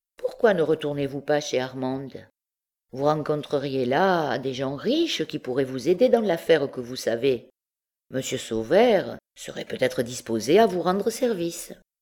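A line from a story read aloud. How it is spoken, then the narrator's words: Indifferent tone. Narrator (French): d'un ton indifférent, ajouta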